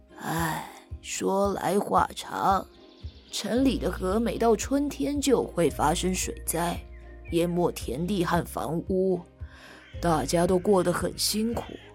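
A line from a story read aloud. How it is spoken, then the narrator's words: Old man sighing. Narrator (Chinese): 老爷爷叹着气说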